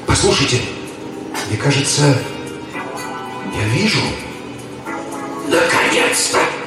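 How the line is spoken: Hissing whisper. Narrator (Russian): свистящим шепотом произнес Круз

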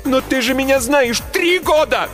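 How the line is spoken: Shout. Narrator (Russian): закричала я

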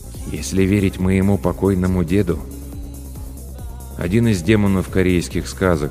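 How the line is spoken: Calm reply. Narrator (Russian): спокойно ответил Ким

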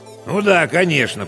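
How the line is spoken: Weary veteran's grumble. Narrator (Russian): проворчал техник, переживший на своей должности уже 3 генсеков и 2 распорядителей

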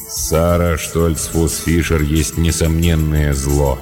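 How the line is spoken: Gloomy. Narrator (Russian): мрачно проговорил он

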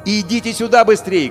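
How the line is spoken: Shouted. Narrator (Russian): крикнул Емельян

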